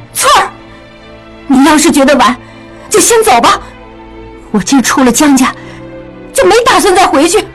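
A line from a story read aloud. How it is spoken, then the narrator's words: Sudden loud outburst. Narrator (Chinese): 雪鹰猛然大声说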